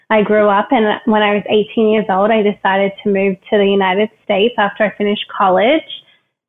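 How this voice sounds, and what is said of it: Australian accent. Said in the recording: “the accent that is so obvious once you get a chance to speak ... I actually grew up in Australia, Canberra”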